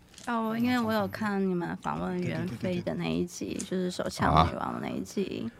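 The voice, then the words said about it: Very quiet, soft speaking voice. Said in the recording (Chinese): “你可以讲话大声一点点。... 讲话就真的很小声”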